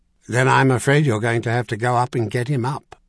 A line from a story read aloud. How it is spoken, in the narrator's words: Sandal said flatly